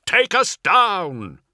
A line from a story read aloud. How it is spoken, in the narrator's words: Ventanus yells over the screams and chatter of gunfire